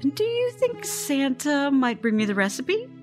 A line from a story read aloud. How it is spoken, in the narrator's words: Scarlett laughs